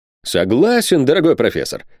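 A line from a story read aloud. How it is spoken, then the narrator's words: Exclamation. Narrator (Russian): воскликнул капитан Сервадак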